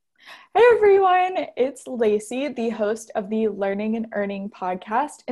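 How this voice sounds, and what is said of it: Polished podcast host voice. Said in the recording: “do my podcast voice.”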